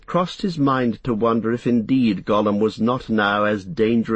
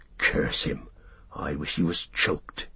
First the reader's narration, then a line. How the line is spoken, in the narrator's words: he muttered